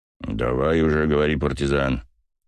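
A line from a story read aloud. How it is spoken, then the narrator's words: Growling. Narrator (Russian): прорычал Басов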